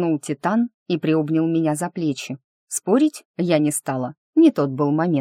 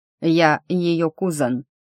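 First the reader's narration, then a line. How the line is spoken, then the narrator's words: Snort. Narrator (Russian): хмыкнул Эрби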